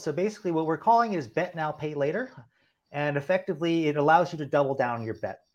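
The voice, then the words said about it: Slightly hoarse, strained voice. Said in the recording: “lost my voice a little bit”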